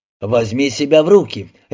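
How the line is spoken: Bark into phone. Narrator (Russian): рявкнул в телефон

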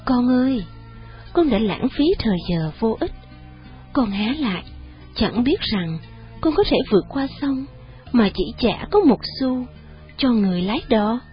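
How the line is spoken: Sorrowful voice. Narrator (Vietnamese): Vị tôn sư nói với một giọng buồn rầu

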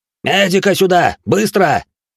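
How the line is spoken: Shouted. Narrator (Russian): крикнул мой мастер

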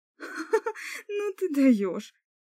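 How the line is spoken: Ringing laughter. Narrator (Russian): Илиси заливисто рассмеялась

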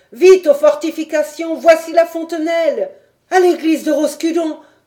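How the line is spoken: Several people shouting. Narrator (French): criaient quelques autres

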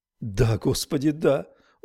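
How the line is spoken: Sobbing. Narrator (Russian): Он зарыдал

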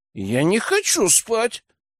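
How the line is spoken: Capricious exclamation. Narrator (Russian): капризно воскликнул Герман

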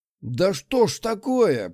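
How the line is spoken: Growled. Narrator (Russian): прорычал Измайлов

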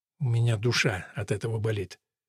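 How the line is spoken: Quiet confession. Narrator (Russian): Керрис глотнула и, отвернувшись, призналась негромко

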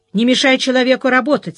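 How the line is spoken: Angry. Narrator (Russian): сердито сказал ей следователь Ольшанский

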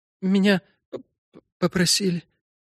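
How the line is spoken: Barely audible, female. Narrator (Russian): еле слышно произнесла она

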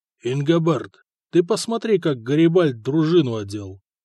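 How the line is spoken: Through gritted teeth. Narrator (Russian): Сквозь зубы сказал Хлотарь своему слуге

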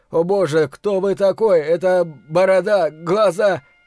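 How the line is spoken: Delirious shout. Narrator (Russian): крикнул, словно в бреду

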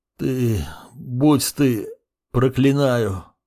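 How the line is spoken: Strained, collapsing. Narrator (Russian): выдавил он, оседая на пол

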